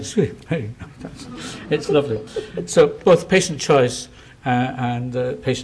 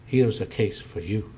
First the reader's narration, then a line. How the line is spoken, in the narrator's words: he said quietly